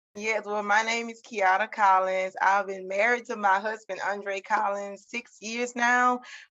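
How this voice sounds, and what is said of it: Southern American accent. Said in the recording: “Y'all, I know y'all hear the accent. ... I love my Southern sisters.”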